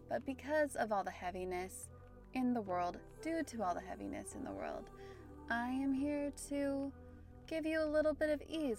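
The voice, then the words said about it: Standard American accent. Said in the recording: “you might be able to tell from my very standard American accent.”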